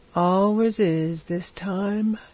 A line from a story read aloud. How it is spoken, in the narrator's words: he said, yawning